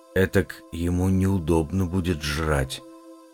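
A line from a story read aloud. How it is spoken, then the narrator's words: Teenage boy whispering. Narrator (Russian): прошептал парнишка лет 16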